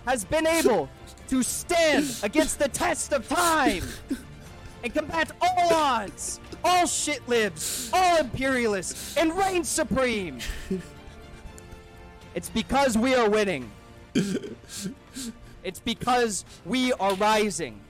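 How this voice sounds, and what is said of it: Dramatic anime-villain style delivery. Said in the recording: “He sounds like an anime villain.”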